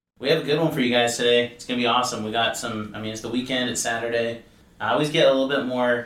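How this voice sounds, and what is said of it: Usual voice. Nothing is said of it.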